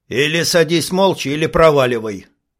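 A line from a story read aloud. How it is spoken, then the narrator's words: Dismissive snort. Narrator (Russian): хмыкнул Карл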